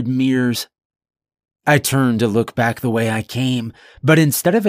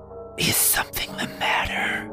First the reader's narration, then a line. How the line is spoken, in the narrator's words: comes a whisper from right behind